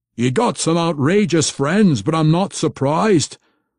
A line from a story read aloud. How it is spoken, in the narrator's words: Pwent roared at Brunner